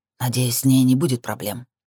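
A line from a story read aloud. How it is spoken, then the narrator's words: Grumbling. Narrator (Russian): проворчал Шакс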